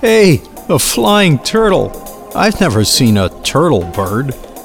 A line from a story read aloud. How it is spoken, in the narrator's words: Birds would laugh